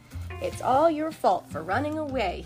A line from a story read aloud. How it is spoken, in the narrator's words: he grumbled